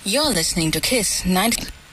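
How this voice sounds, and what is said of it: Put-on radio announcer voice. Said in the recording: “radio voice ... she's doing her best radio voice.”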